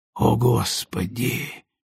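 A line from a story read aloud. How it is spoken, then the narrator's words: Breathed out. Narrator (Russian): выдохнул рядом со мной Пол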